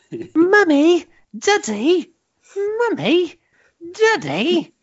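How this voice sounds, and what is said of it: Imitates British child's whiny voice. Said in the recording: “the British children have the most aggravating way of getting their parents' attention ... I'll do an impression.”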